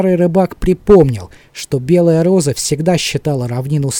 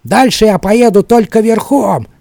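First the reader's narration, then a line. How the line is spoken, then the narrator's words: Quarrelsome female voice. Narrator (Russian): сказала она склочным голосом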